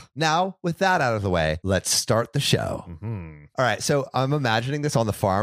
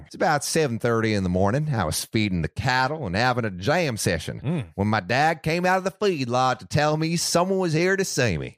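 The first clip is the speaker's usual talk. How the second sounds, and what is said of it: Slight country twang. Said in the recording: “I'm going to do a little twinge of an accent ... A little twang”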